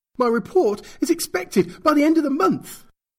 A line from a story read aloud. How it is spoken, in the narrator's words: Agent Batashka was screaming now, his parched throat forgotten